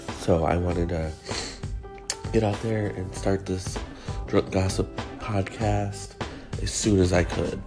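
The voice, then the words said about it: Strained, coughing voice with a cold. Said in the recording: “gave my voice a little bit of a rest and I don't keep coughing on you ... I am battling one of these colds that's going around”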